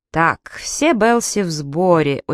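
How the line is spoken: Very slow speech. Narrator (Russian): очень медленно проговорил Джек

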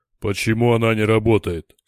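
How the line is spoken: Stern question. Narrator (Russian): строго спросил Дор

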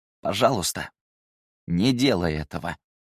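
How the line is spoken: Even, slightly hoarse voice. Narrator (Russian): Ровным, немного сиплым голосом произнес он

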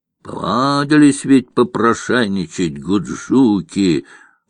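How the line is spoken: Grumbling woman. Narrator (Russian): проворчала тетка

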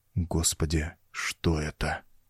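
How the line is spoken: Barely audible mutter. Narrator (Russian): Мэнвилл едва слышно пробормотал

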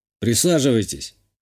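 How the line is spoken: Snorting remark. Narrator (Russian): хмыкнул

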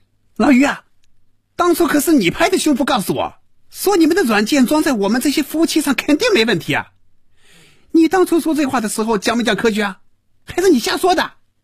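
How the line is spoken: Furious shouting. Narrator (Chinese): 赵平凡被余威彻底激怒了，真要骂人了，大声嚷着

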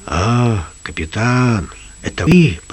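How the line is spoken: Whisper. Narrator (Russian): прошептал Лукас

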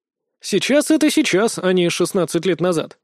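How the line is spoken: Dry. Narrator (Russian): сухо ответил я

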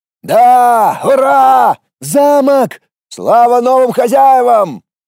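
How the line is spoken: Several voices cheering. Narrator (Russian): Его поддержали сразу несколько голосов

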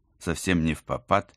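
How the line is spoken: Plain. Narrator (Russian): спросила я

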